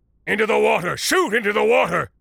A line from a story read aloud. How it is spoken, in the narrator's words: Mundus was shouting